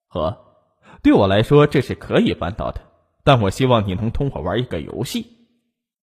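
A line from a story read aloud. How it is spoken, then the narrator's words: Meaningful, knowing smile. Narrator (Chinese): 意味深长的笑了笑，说道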